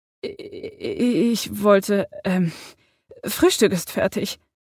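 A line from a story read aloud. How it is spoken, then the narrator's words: Stammered. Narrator (German): stammelte sie dann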